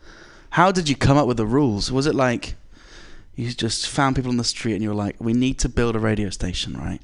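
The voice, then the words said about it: English accent. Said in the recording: “All the way from England. ... my accent”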